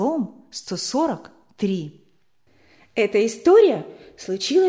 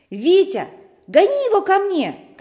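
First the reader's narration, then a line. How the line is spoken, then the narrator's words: Shouted. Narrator (Russian): кричал Сережа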